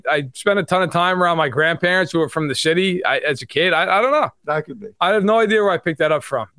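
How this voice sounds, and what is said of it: New York accent. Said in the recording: “why does your dad have this accent like you have? It seems like yours is a fake accent ... act like you're from New York ... He has a New York accent”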